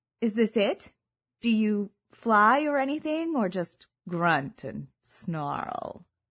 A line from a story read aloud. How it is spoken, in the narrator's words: I let the sexiest purr I could manage simmer under the final words